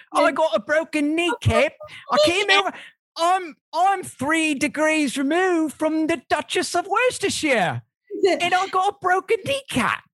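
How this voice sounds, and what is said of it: Put-on posh English accent. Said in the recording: “your accent's a little bit high class, mate.”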